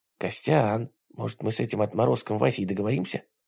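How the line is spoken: Whisper. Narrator (Russian): прошептал Филимонов

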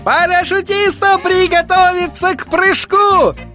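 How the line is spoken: Yelling. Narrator (Russian): заорал Верн

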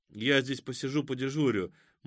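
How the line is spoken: Gloomy. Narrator (Russian): мрачно сказал Кузьма

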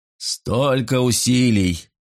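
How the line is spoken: Grumbling. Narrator (Russian): ворчал Аган-хан

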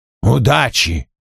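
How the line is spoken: Snorting. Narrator (Russian): фыркнул Вульф

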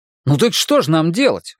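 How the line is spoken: Exclamation. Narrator (Russian): воскликнул я

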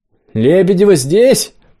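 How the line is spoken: Bold shout. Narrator (Russian): отважно крикнула Настя

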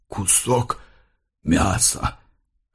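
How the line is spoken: Hoarse. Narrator (Russian): хрипло произнес Тезей

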